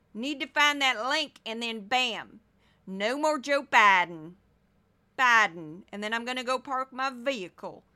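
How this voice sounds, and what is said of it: Put-on Southern Missouri accent. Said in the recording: “you're making fun of Southern people... I'm from Missouri... I'm doing an accent that I grew up around”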